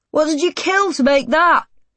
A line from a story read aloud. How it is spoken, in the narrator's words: Jordan yells out